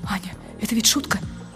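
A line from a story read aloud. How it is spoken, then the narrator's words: Whisper. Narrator (Russian): он говорит шепотом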